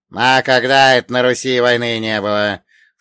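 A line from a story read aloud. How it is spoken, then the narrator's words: Dead man snorting. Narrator (Russian): фыркнул мертвец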